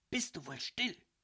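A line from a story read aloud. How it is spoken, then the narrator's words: Hiss. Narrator (German): zischte Marie zu ihm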